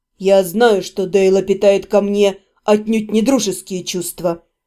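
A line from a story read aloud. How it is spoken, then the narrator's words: Muffled, reluctant confession. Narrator (Russian): наконец глухо признался Седрик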